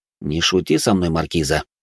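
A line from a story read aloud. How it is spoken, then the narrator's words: Cold tone. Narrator (Russian): произнес я холодным тоном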